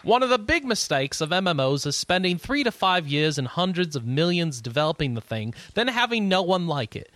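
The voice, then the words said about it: Fake, poor British accent. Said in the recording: “I'm going to do this in a fake English accent ... I'm still going to do it in a fake British accent ... I've got a terrible British accent”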